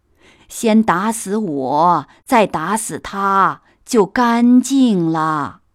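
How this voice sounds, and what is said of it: Trembling old woman's voice. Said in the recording (Chinese): “颤巍巍的声音”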